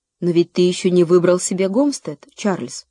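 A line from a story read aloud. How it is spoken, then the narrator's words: Plain. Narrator (Russian): сказала мама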